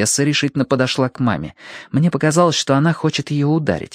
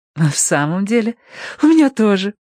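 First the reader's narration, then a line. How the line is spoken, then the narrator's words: Joyful. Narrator (Russian): радостно ответила мама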